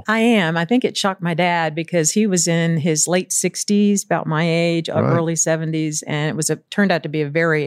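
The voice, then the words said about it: Southern US accent. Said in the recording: “my Southern accent would come out ... that Southern accent is going to come out again”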